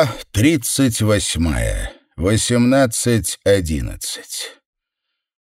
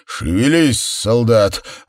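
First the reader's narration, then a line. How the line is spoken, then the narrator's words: Growled in angry sergeant voice. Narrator (Russian): рыкнул Сэм сам на себя голосом злого сержанта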